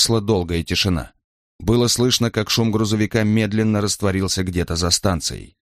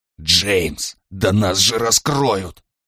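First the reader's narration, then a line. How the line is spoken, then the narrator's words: Hiss. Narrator (Russian): прошипел Брайан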